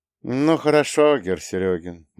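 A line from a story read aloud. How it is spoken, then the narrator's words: Gloomy. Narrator (Russian): мрачно произнес Гедрих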